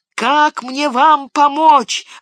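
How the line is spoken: Desperate shout. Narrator (Russian): в отчаянии крикнул Сэм

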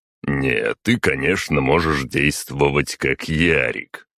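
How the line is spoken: Snorting. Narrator (Russian): хмыкнул Магнус

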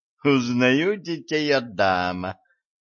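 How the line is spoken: Laughing. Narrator (Russian): рассмеялся эльф

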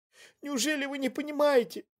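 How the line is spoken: Moaned. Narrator (Russian): Простонала она

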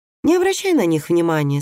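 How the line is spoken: Calm. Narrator (Russian): спокойно сказал Никлас

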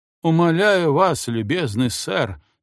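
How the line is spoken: Hoarse, dejected. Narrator (Russian): сказал он сипло и уныло

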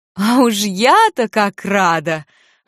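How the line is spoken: Relieved laughter. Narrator (Russian): облегченно рассмеялась

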